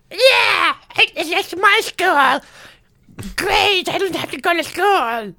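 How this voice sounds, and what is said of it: Spot-on impression of a kid character. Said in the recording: “I love your impression of this character. ... It's spot on. ... It's really good.”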